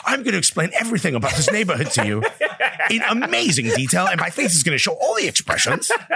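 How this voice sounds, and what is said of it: Imitates another person's voice. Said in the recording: “That's a good Ellie Menjen impression.”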